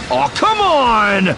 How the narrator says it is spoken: Finn yelled

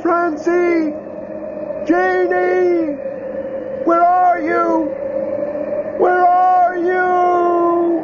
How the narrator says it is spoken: shouting

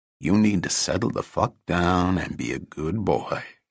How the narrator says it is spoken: he said in a calm, low voice

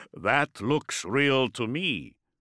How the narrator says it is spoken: Zaphen chuckled

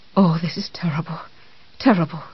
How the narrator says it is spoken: she said in a faint, fluttery voice

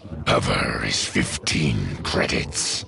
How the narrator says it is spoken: growled

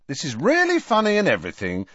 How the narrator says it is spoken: said Harry impatiently

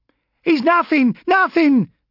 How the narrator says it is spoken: shrieked

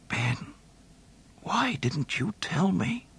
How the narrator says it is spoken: he muttered softly, and then, in utter despair, whispered

